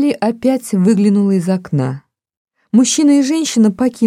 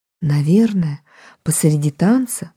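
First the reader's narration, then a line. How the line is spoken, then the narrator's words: Whisper. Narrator (Russian): прошептала она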